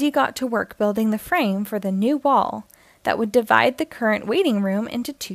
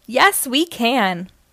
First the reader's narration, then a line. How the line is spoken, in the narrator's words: Wendy, Muck, and Lofty all shouted